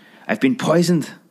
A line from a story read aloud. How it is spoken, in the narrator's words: spluttered the manly lover